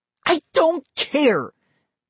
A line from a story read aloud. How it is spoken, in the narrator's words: Molly cried